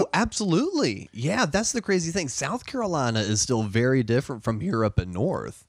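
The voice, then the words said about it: Southern American accent. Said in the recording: “a heavier Southern accent than I already do”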